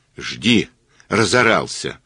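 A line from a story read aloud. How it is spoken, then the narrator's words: Girl snapping back. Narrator (Russian): огрызнулась девчонка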